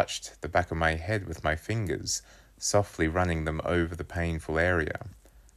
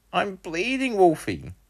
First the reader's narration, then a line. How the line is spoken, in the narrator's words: I exclaimed